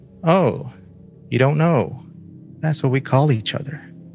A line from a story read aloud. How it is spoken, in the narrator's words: Her seatmate sighed and said